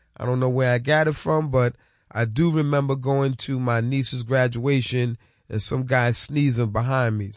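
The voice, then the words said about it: Sick, cold-affected voice. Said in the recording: “excuse my voice. I had a cold for the past week.”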